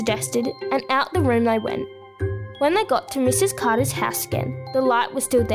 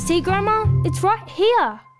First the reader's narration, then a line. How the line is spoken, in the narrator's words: Summer called out loudly